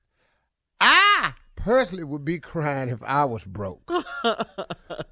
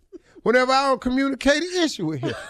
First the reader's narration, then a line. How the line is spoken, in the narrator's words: he cries